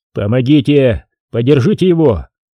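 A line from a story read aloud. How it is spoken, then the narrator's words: Shout. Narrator (Russian): крикнул Егорьев солдатам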